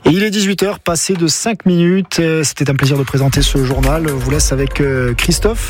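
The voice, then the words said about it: A pleasant regional French accent. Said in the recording (French): “Il y avait comme un accent... c'est un bel accent”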